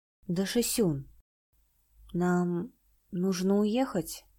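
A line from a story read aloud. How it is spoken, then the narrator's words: Gentle question. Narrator (Russian): мягко осведомился Ли Юнь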